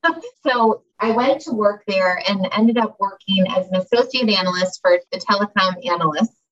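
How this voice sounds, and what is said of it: Chicago accent. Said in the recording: “based in Chicago, actually, which you can probably tell from my accent I'm from”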